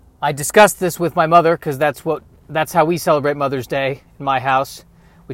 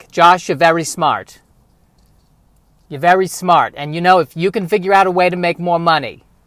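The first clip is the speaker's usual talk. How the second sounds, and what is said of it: Put-on Jewish accent, mother's voice. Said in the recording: “she doesn't have a Jewish accent, but for some reason, I think it's better if she does for the sake of the story”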